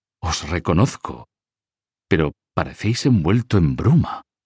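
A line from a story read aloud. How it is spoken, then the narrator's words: King speaking weakly. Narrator (Spanish): dijo el rey débilmente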